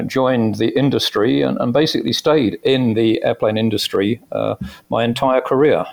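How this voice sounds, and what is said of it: British accent. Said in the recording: “great accent ... I came from the UK originally. You could probably guess that uh, from my accent.”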